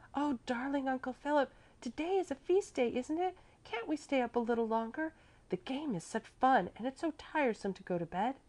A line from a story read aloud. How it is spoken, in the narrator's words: caressingly whispered in his ear